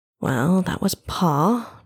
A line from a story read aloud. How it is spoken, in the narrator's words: Trevok said under his breath to no one in particular